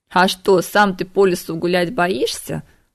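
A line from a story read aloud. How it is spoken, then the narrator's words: Chuckling. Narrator (Russian): хохотнул переселенец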